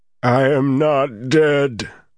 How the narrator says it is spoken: the voice howled

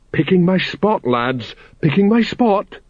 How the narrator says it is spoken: quavered Kolon

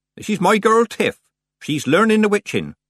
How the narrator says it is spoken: said Nanny, raising her voice

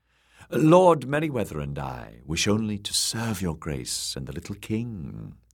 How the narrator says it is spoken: the woman purred

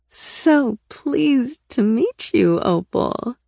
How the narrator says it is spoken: Rena purred

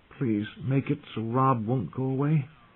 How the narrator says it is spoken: he prayed softly

